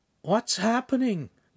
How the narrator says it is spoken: Lincoln said sleepily

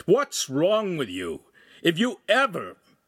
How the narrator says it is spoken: the master shouted

